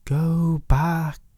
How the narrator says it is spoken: the words on the wind whispered

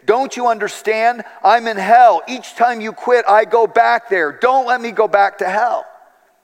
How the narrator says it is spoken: he said, after several resuscitations, the man pleaded

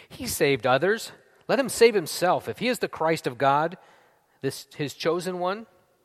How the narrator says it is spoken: the rulers scoffed at him, saying

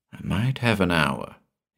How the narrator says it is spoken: he muttered to himself

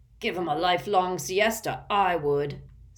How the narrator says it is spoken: snarled Uncle Vernon

